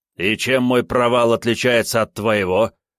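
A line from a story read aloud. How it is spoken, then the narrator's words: Growled. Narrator (Russian): рыкнул демоническое копье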